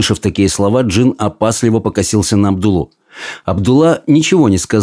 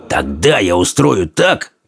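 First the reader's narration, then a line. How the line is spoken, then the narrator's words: Soldier hissing. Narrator (Russian): прошипел солдат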